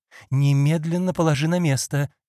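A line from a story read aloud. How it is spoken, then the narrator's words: Frightened exclamation. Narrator (Russian): испуганно воскликнула девушка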